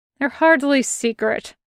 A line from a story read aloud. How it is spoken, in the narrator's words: mutters